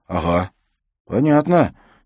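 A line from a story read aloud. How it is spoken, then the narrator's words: Uncertain. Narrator (Russian): неуверенно проговорил он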